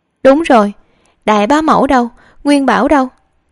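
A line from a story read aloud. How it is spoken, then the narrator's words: Hurried shout. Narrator (Vietnamese): Khương Huệ Như vội la lên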